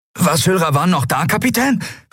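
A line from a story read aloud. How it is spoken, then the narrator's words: Excited question. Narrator (German): fragte Miko aufgeregt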